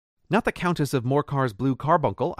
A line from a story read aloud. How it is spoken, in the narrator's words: I exclaimed